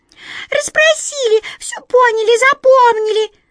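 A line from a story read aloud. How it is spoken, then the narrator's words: Squeaking mice. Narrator (Russian): запищали мыши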